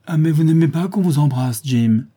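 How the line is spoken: Exclaiming. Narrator (French): s'écria-t-elle

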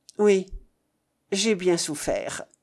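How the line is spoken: Muffled voice. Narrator (French): répondit René d'une voix sourde

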